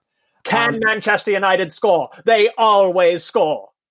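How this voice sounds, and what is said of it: Posh football commentator voice. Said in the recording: “my Clive Tyldesley impression ... That is horrifying, and it sounds like a member of the royal family was doing commentary”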